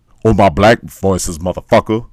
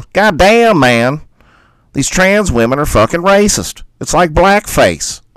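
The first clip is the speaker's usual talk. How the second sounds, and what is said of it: Imitates another person's voice. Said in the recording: “I'll do my Dave Chappelle.”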